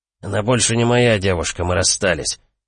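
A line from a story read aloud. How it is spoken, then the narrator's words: Displeased grumble. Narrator (Russian): недовольно буркнул Анхель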